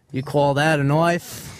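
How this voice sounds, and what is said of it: Put-on Australian accent. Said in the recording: “I'll do an Australian one. ... Let's talk Australian. ... Enough of the Australian accents.”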